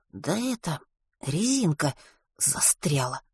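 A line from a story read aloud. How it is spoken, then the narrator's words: Muttering. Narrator (Russian): пробормотал Веня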